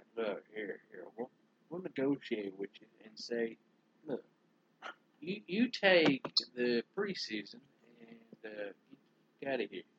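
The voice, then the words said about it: Bad Jerry Jones impression. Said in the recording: “my Jerry Jones impression ... It's bad, Jerry.”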